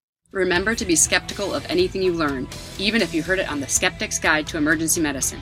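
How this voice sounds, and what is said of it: Exaggerated put-on Ohio accent. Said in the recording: “in your over-the-top, thickest Ohio accent”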